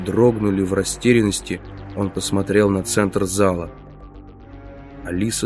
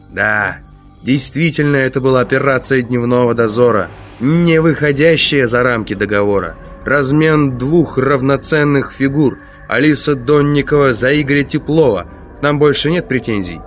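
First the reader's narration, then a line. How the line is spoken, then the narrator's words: Amused, laughing. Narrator (Russian): Он засмеялся, сказал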